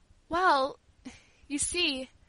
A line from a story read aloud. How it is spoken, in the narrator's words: she said hesitatingly in a trembling voice